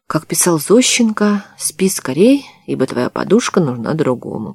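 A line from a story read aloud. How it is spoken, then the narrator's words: Mumbled. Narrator (Russian): пробормотала она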